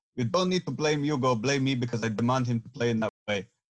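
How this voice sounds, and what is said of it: Poorly done imitation of another's accent. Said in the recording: “that was a horrendous Pochettino accent. I didn't put any effort into it”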